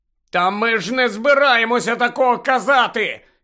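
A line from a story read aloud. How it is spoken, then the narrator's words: Shouted. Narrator (Ukrainian): закричав Гаррі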